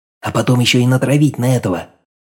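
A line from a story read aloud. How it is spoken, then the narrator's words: Quiet, cheerful suggestion. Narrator (Russian): Так же тихо, как и батя, предложил вечно неунывающий Дрозд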